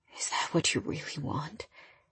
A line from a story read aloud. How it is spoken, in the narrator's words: His heartbroken eyes stared into mine, and his voice sounded hoarse